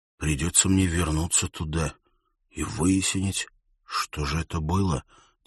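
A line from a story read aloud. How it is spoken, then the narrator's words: Quiet. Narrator (Russian): тихо произнес он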